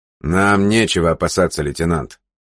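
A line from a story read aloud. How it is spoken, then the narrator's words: Stern. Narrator (Russian): строго сказал февралит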